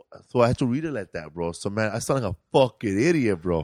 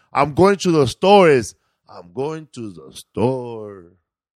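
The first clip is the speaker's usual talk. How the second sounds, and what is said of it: Put-on Mexican accent, lowered voice. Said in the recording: “when you do the Mexican accent, when you talk, you got to talk like you're talking down. So you got to bring your voice down. So every word has to end like you're dropping it”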